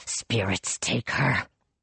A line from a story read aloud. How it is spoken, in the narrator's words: he growled